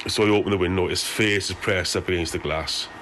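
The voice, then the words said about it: Strong regional British accent, hard to follow. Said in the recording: “I'm having a difficult time with the accent here ... I can understand this a little bit more clearly than I can the Scottish Glaswegian accent ... a little bit better with the Welsh one”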